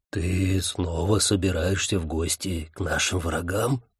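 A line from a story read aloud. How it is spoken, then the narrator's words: Whispered question. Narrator (Russian): шепотом спросил Джин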